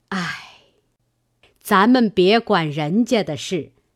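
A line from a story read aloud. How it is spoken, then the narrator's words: Sighing. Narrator (Chinese): 贾母点头叹道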